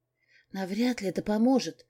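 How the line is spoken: Nervous whisper. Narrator (Russian): прошептала я в ответ, вытирая о юбку вспотевшей от волнения ладони

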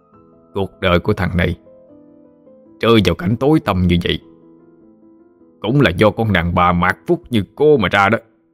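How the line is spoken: Harsh, clenched voice. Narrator (Vietnamese): Tâm gằn giọng nói

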